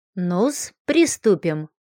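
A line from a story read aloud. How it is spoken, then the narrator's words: Grumbled. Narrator (Russian): буркнула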